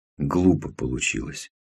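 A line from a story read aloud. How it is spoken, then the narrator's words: Muttering. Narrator (Russian): пробормотал дядя Лёва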